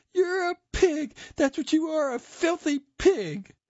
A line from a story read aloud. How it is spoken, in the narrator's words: She burst into tears and screamed at him